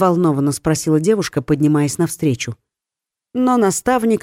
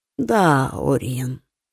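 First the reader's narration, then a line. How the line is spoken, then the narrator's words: Hoarse with fatigue. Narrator (Russian): хриплым от усталости голосом проговорил Кертон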